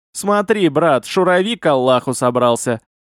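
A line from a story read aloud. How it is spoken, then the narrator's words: Laughing. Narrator (Russian): засмеялся Хамид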